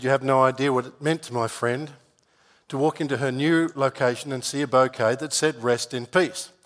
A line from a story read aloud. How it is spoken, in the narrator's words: The florist said